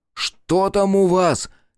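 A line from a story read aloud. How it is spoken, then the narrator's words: Shouted. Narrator (Russian): крикнул Руднев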